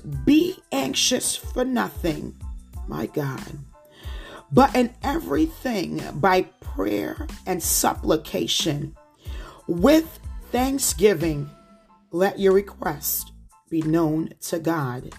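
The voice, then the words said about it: New Jersey accent. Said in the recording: “with my Jersey accent.”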